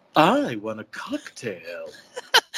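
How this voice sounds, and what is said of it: Imitates another person's voice. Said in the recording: “I can do a Kim Cattrall voice ... That's a terrible impression.”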